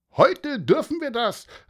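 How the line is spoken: Called out. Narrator (German): rief Fleischermeister Frerichsen

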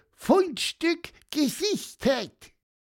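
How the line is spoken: Beeping alarm. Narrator (German): piepste

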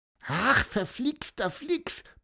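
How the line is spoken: Squeaky voice. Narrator (German): piepste

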